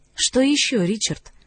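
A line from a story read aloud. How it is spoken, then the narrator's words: Soft question. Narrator (Russian): мягко спросила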